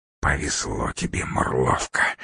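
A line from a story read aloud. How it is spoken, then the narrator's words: Angry hiss. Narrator (Russian): зло прошипела Лупоглазка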